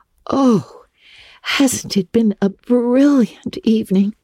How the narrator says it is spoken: sighed Anne

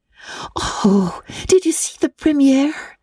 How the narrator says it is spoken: exclaimed Anne at once

